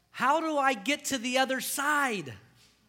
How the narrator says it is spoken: And one blonde yelled to the other blonde, she said

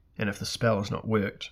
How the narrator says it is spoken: Moonglum murmured

